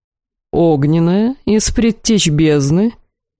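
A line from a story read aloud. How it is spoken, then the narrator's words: Tempting tone. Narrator (Russian): искушающим тоном предложил Рвиэль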